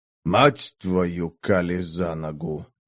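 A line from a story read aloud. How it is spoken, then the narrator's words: Mutter. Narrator (Russian): забормотал Дарк, с тоской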